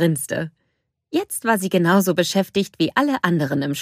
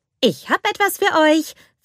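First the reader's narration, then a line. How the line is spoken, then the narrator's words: Cheerful announcement. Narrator (German): verkündete sie fröhlich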